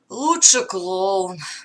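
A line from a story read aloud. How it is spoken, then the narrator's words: Sighing. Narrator (Russian): вздохнул капитан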